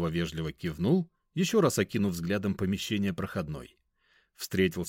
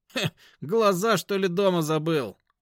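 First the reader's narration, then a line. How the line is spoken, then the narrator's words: Mocking snort. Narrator (Russian): хмыкнул вахтер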